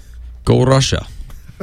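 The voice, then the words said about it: Attempted Russian accent. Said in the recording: “Was that your Russian? ... That was my try.”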